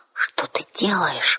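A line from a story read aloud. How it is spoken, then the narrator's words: Bewildered whisper. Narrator (Russian): растерянно шепнула я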